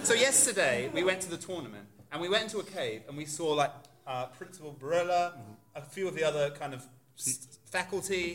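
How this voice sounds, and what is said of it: Put-on British accent. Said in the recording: “Accent off. ... are you British ... Were you trying to be British then”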